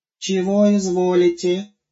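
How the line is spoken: Lisping. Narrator (Russian): продолжал шепелявить новый Гоша

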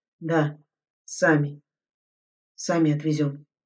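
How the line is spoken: Driver muttering. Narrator (Russian): бормотал шофер

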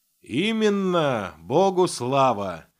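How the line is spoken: Sudden cheerful boom. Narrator (Russian): внезапно прогремел веселый голос отца Флавиана

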